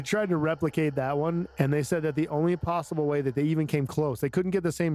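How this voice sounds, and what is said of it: Usual voice. Nothing is said of it.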